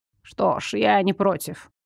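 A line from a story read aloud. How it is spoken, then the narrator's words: Hesitant mutter. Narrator (Russian): пробормотала Уляна после томительного ожидания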